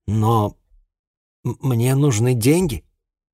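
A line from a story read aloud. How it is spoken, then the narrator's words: Mumbled. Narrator (Russian): промямлил я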